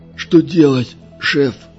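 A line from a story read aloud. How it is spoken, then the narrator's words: Hoarse question. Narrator (Russian): хрипло спросил Бюскермолин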